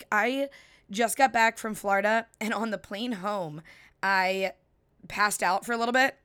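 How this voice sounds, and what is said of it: Slightly raspy voice. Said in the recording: “My voice is a little raspy ... I sound like I have party girl voice”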